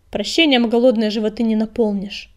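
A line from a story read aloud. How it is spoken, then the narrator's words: Cold, curt. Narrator (Russian): холодно отрезала предводительница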